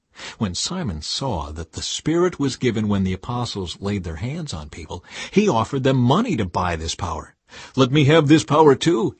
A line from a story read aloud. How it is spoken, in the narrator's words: he exclaimed